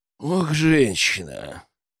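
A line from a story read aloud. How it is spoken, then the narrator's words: Sighed. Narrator (Russian): вздохнуть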